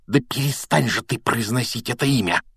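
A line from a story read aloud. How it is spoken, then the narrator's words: Hissed. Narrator (Russian): прошипел Рон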